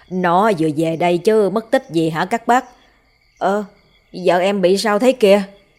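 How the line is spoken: Loud laugh. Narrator (Vietnamese): Chú Tí cười lớn

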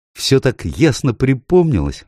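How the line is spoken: Exclamation. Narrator (Russian): воскликнула

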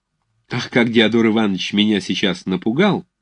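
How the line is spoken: Good-natured and cheerful. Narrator (Russian): сказала она добродушно и весело

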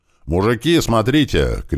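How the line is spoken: Shout. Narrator (Russian): крикнул кирпич

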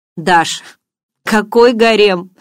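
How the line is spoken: Laughing. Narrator (Russian): рассмеялся Барс

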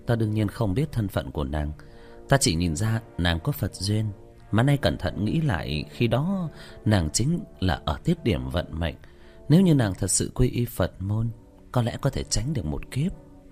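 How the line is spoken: Sighing. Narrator (Vietnamese): Tĩnh Tuệ Sư Thái thở dài

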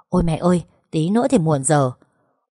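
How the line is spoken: Breathless girl muttering. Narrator (Vietnamese): cô bé thở hổn hển lẩm bẩm

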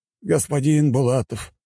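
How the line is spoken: Sighing. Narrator (Russian): вздохнул ректор

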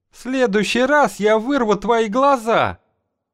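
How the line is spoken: Furious howl. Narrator (Russian): Генобра взвыла, как ведьма, напоровшаяся на помело причинным местом

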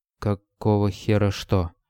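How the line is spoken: Slow, very cautious. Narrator (Russian): медленно и очень осторожно, словно нащупывая ногой в темноте скользкий камень, спросил

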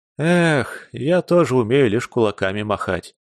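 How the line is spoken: Sad sighing admission. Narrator (Russian): грустно вздохнув, признался Алексей

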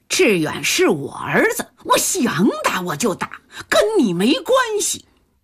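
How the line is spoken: Aggressive clamoring. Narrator (Chinese): 于大敏叫嚣起来

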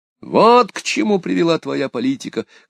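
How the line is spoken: Shouting. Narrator (Russian): кричал де Салин

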